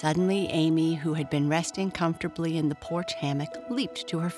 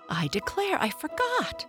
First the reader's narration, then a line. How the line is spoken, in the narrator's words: she cried